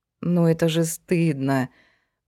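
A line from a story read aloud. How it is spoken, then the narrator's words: Mumbling. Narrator (Russian): промямлила Сашка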